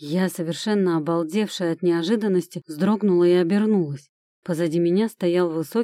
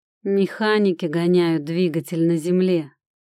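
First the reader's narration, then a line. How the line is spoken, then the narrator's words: Slightly husky male voice. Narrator (Russian): Раздался у меня за спиной слегка хрипловатый мужской голос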